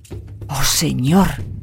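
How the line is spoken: Whispering. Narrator (Spanish): susurró Denan

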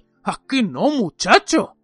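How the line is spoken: Growled. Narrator (Spanish): gruñó Moody

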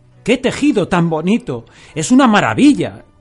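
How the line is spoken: Exclaimed. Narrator (Spanish): exclamó Yosaku

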